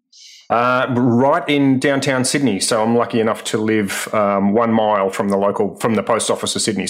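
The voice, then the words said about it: Australian accent. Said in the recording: “people probably recognize your accent. You're joining us from Australia.”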